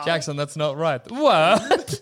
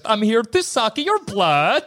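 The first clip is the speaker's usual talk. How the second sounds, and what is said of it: Weird Swedish-sounding Dracula accent. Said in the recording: “It's cool that you adopted Dracula's accent. I like to imagine I'd do it wrong and do a weird Swedish accent.”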